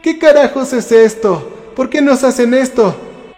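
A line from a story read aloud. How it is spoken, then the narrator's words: Furious shout. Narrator (Spanish): gritó Jessica furiosa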